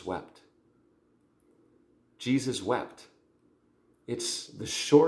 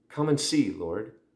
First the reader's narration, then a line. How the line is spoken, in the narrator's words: replied